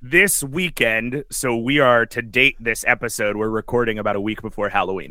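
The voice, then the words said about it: Hoarse, worn-out voice. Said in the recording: “My voice is so shot... my voice, like my throat feels like it's made of clay”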